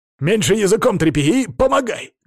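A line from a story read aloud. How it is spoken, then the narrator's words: Barked shout. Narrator (Russian): гаркнул я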